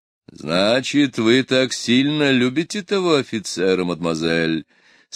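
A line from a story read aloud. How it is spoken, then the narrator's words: Dejected voice. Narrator (Russian): спросил подавленным голосом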